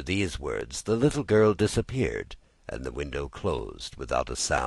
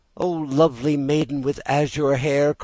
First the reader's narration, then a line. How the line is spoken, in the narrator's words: cried Pinocchio